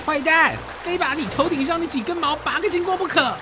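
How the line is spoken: Frenzied shout. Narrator (Chinese): 罗宾汉发疯似的，喊道

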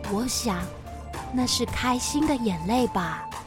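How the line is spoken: Quiet. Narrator (Chinese): 奥斯卡小声地说

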